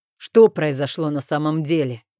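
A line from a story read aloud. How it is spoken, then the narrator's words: Rough question. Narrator (Russian): грубо спросил муж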